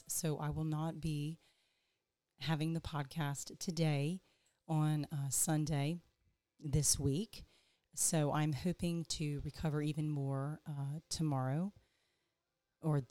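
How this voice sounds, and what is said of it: Hoarse, strained voice. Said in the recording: “I am experiencing some laryngitis”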